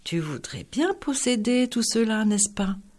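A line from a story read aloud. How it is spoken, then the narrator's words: Sighed with interest. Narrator (French): soupira-t-il plein d'intérêt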